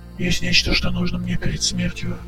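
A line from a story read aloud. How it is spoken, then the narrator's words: Faint dying voice. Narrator (Russian): произнесло замирающее создание едва слышно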